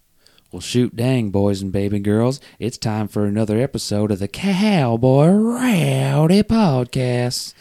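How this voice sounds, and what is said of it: Put-on twang like Mr. Garrison. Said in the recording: “sounded like Mr. Garrison right now from South Park ... It's a different kind of twang.”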